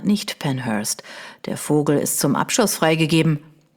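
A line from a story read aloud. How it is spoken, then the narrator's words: Man purring softly. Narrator (German): säuselte einer der Männer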